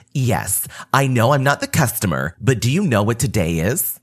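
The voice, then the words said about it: Snarky, attitude-filled voice. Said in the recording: “in a snarky voice”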